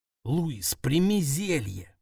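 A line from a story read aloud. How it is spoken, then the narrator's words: Hiss. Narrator (Russian): прошипел я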